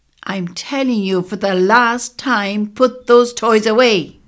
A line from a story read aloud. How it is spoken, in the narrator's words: A woman's voice called out